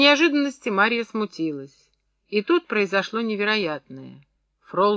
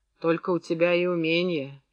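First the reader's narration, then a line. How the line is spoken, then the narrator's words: Quiet speech. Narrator (Russian): тихо проговорила Мария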